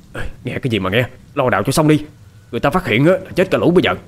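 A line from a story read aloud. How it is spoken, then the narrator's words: Harsh snap. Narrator (Vietnamese): Thằng Lư nạt ngang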